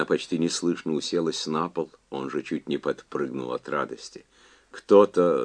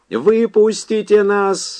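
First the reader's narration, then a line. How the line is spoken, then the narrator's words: Screaming. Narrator (Russian): завопил Рейнберт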